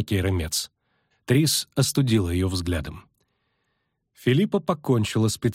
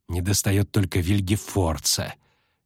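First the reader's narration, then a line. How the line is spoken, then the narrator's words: Quiet malicious hiss. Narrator (Russian): тихо, но с явной злобой прошипела Сабрина Глевисик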